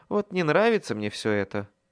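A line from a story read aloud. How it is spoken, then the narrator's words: Sigh. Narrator (Russian): вздохнул я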